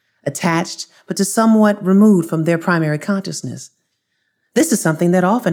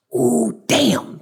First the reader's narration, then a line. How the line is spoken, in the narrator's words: the oldest brother whispered to the others